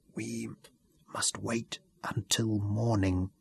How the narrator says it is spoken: breathed

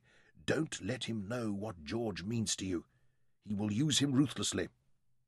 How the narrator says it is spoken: Verity whispered urgently

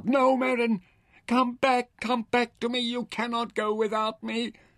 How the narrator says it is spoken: When she felt him go limp in her arms and his sweat-drenched body start to cool, she cried out

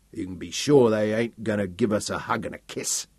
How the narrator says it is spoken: Sam grunted

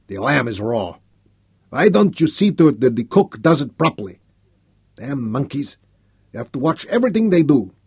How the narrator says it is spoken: to snarl at Tessé

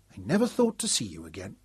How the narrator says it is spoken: she said in a wondering, bemused tone

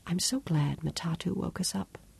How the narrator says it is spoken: she whispered

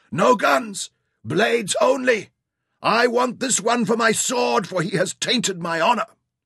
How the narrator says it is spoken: heard Osman shout behind him

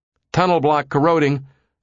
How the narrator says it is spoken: a technician yelled

